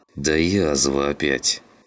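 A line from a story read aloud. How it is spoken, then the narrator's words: Through gritted teeth. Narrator (Russian): процедил сквозь зубы Клим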